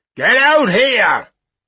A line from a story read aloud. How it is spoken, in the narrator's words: roared the man again